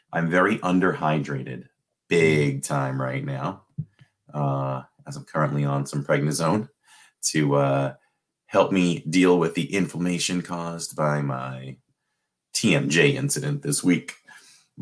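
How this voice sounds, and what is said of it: Dry, parched-sounding voice. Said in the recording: “I'm super dehydrated right now. As you can hear in my voice, it's definitely dry”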